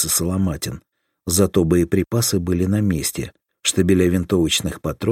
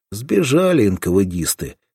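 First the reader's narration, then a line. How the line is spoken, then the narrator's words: Snort then sigh. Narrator (Russian): хмыкнул его спутник и вздохнул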